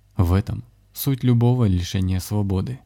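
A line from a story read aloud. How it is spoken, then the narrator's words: Sad summary. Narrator (Russian): грустно резюмировал Александр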